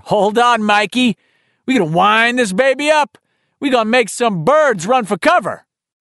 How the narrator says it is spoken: his dad, who would grin over at him and holler

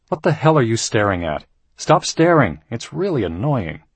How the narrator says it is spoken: Tom snapped

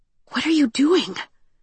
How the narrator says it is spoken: she whispered

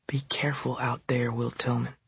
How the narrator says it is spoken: she whispered

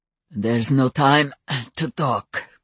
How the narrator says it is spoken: grunted Stefan

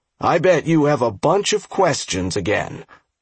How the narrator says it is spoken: Pup said gruffly

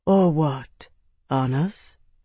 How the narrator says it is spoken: Lady Aquitaine asked, her voice almost poisonously reasonable

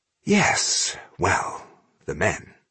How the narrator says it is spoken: he murmured

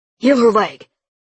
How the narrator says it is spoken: he barked at Noah

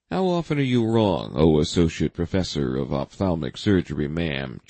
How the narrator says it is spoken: Jack chuckled

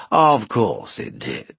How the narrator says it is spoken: said Tuathal

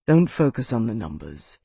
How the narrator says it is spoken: he said in that same low tone

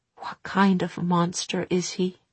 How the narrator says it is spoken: Tessa whispered

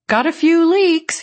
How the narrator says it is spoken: he called out in a friendly way

